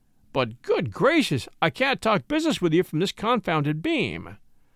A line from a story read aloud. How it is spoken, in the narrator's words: he cried lugubriously